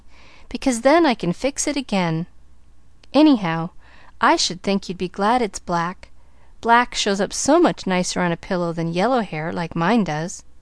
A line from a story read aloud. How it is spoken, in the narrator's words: nodded Pollyanna cheerfully